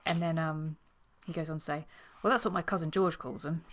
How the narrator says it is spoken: chuckled his lordship

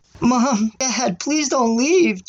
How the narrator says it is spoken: Jasper yelled with tears in his eyes

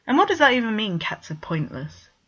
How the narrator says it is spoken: Vegard scoffed

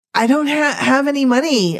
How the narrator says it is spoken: I stammered

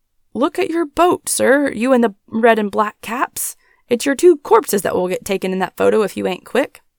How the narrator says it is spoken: the whole lock started yelling, and a stentorian voice from the back shouted

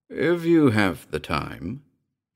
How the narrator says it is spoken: he began, his voice rich and colourful

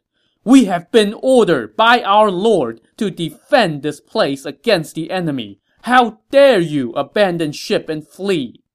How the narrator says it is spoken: gripped his sword and yelled

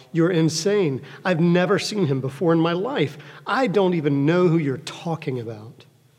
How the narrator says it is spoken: Peter yelled out

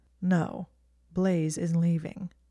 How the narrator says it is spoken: he said coolly

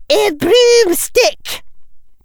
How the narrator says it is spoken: Professor McGonagall shouted

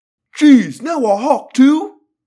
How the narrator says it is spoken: a cop yelled

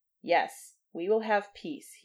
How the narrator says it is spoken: he said, now in a clear voice

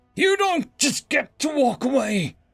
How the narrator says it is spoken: I raised my voice enough to reach his ears

